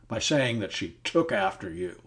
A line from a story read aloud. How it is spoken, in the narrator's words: he cried